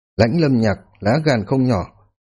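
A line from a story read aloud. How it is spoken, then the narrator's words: Cold. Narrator (Vietnamese): Hàm Thương Yên lạnh lùng nói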